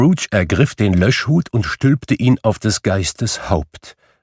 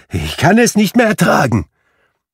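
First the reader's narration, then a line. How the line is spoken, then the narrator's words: Exclaimed. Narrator (German): rief Scrooge aus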